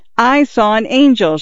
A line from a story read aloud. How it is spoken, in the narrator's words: Xiao Shui screamed